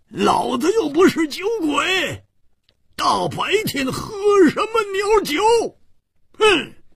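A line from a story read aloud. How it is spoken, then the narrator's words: Angry roar. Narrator (Chinese): 胡铁花更是满肚子的怨气没处发，大声地吼叫着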